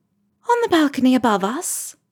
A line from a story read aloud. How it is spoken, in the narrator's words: Luna says, her voice airy